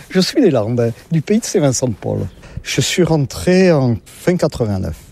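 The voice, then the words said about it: Southern French regional accent. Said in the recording (French): “comme vous l'entendez, je ne suis pas de la région ... Avec mon accent, je ne suis pas du Nord-la-Loire”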